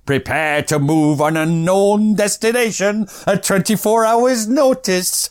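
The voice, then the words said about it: Slight put-on Scottish accent. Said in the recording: “I gave it a little bit of a Scottish accent ... you'll see why we're not doing accents on this”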